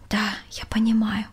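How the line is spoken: Quiet. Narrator (Russian): тихо ответила Валентина

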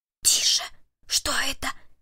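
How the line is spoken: Whispered. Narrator (Russian): прошептал Перри

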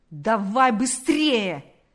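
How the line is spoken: Policeman shouting. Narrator (Russian): закричал полицейский

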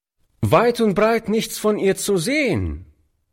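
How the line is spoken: Calling out. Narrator (German): rief der Junge dem alten Mann zu

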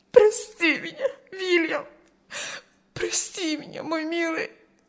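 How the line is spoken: Sobbing. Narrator (Russian): Рыдала она

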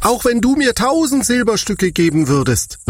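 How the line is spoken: Indignant shout. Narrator (German): rief er entrüstet

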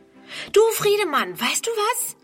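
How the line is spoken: Calling out. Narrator (German): ruft

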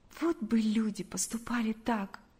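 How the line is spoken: Heavy sigh. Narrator (Russian): сказала Галя, тяжело вздохнув

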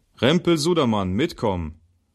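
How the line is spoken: Called out. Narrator (German): Der Wachmann … rief

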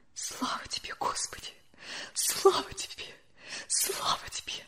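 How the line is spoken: Whispered. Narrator (Russian): шептала Любовь Александровна

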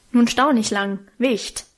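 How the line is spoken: Gruff man snapping. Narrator (German): schnauzte mich einer der großen, rußgeschwärzten Männer an

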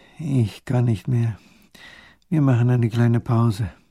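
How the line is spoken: Exhausted groan. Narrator (German): sinkt der kleine Großherzog ins Moos nieder und stöhnt

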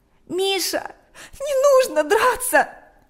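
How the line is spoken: Tearful. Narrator (Russian): произнесла она сквозь слезы

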